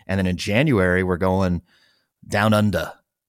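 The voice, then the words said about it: Bad put-on Australian accent. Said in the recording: “That was a very terrible Australian accent ... Was that a Kiwi accent? Did I do a Tassie accent? ... Maybe a Bogan version of Australian accent.”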